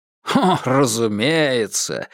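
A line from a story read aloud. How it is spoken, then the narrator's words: Laughing. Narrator (Russian): рассмеялся Клеменс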